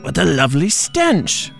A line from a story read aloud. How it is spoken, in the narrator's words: Shrek cackled